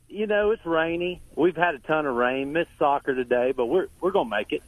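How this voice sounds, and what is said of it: Southern American accent. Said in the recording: “I love your accent? ... it's Southern charm. ... Loves Southerner”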